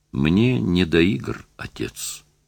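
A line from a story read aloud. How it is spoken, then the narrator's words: Sad. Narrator (Russian): сказал он грустно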